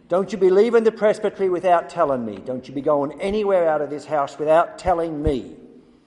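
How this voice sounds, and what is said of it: Poor put-on Irish accent. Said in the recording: “My Irish accent is hideous.”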